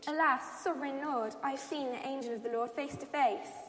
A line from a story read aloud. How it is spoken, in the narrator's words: When Gideon realized that it was the angel of the Lord, he exclaimed